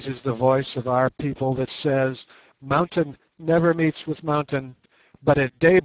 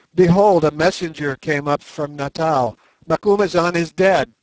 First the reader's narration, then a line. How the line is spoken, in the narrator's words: cried he